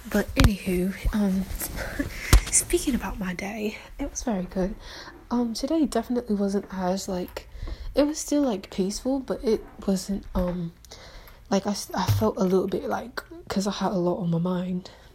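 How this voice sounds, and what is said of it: Put-on British accent. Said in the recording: “I feel as if my British accent is coming out ... let me stop talking in a British accent.”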